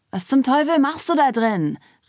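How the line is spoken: Impatient shout. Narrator (German): rief Trey, der zweifellos ungeduldig darauf wartete, die Sache zum Abschluss zu bringen

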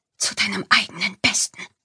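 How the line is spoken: Whisper. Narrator (German): flüsterte

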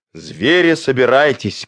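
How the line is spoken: Shouting. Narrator (Russian): крикнул

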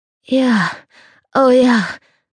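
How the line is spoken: Ecstatic moan. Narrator (German): stöhnte sie voller Ekstase

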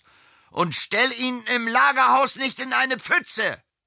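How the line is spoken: Calling from a distance. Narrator (German): rief Josef Steinhaus vom Ufer aus

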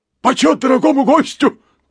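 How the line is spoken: Rapid shout. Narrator (Russian): прокричал он скороговоркой

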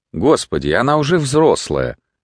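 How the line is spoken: Plain. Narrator (Russian): сказал он

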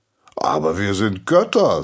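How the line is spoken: Cheerful. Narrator (German): sagte Apollon fröhlich

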